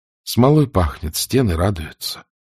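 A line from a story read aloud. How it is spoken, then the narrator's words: Quiet. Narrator (Russian): Елена тихо ответила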